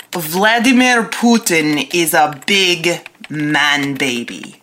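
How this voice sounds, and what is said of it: Put-on Russian accent. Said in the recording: “Do you have to do the Russian accent?”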